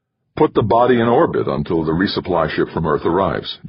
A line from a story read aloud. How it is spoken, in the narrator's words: Jamie said